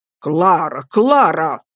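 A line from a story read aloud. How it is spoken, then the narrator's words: Stern. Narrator (Russian): строго проговорил мистер Мордстон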